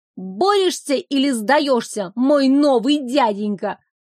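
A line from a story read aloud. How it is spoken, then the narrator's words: Girl's fierce shout. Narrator (Russian): Девочка, полная боевого настроя, крикнула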